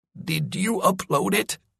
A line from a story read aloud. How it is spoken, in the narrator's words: wheezed